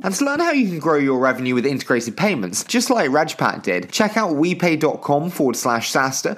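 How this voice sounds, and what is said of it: English accent. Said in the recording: “this dulcet English accent”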